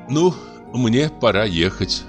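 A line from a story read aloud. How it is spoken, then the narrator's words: Plain. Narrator (Russian): сказала она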